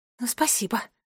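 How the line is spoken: Muttering. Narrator (Russian): пробормотала Джеральдина

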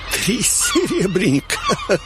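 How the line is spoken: Loud laughter. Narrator (Russian): Я захохотал

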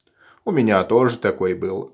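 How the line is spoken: Sighing. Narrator (Russian): вздыхает он

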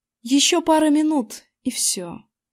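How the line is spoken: Plain. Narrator (Russian): сказала мое отражение

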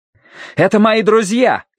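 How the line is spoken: Shouted in someone's face. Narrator (Russian): крикнул он в лицо Фалько

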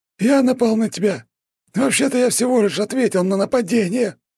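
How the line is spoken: Wheezed. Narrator (Russian): прохрипел Богомолов

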